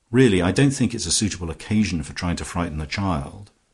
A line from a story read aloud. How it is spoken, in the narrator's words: Twyford started for a second and then said sharply